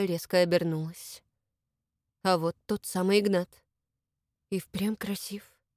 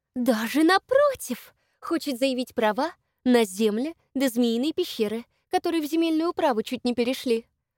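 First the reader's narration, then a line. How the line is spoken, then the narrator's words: Said joyfully. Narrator (Russian): радостно сообщила любящая сплетни Лопушкина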